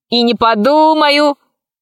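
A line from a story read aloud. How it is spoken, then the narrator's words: Boy shouting. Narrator (Russian): закричал мальчишка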